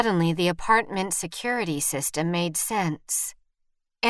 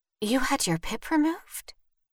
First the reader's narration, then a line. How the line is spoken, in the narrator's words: Vivian whispered